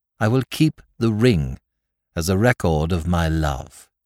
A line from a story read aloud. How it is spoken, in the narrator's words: she said